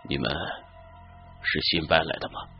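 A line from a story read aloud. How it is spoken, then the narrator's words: Hoarse, metallic voice. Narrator (Chinese): 他边问边转了身，他的声音有些沙哑，而且带着一种金属摩擦的感觉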